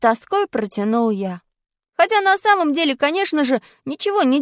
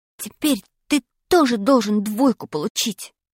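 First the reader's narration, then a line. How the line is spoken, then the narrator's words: Whisper. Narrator (Russian): прошептал я Пашке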